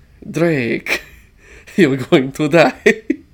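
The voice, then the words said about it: Failed accent imitation, sounds vampire-like. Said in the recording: “I'm making him sound like a vampire. I can't do a Banderas' accent.”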